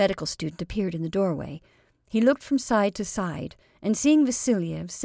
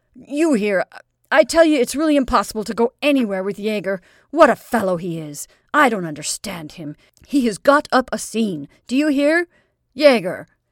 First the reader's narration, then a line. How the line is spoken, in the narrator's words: he shouted at the door